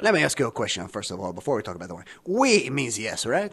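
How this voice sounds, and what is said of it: Cartoonish fake French accent. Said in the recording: “I do not have this accent, but they want to make you feel as though this is a sort of Looney Tunes experience. Oui?”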